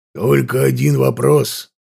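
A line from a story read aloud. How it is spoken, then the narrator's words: Growled. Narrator (Russian): прорычал демон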